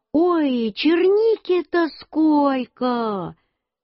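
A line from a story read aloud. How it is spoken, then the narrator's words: Shouting. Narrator (Russian): Мама закричала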